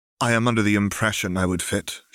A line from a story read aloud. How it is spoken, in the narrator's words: she said flatly